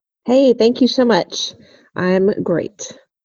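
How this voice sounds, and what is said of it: Gravelly, hoarse voice from a cold. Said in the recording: “I'm getting over a little cold right now, and so my voice is a little gravelly”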